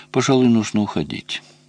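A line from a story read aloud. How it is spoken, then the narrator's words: Calm. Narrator (Russian): спокойно сказала Надя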